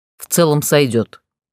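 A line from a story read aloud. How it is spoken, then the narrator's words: Grunted. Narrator (Russian): хмыкнул Гроу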